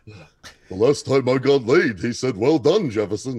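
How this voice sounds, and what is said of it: Jax impression in Jackie Mason voice. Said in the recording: “only as Jackie Mason, my Jackie Mason for my Jax impression”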